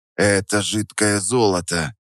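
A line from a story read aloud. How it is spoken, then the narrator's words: Whisper. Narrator (Russian): Прошептал я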